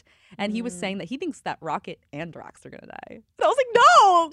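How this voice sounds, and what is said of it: Voice suddenly rises high in pitch. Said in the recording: “my voice just got high.”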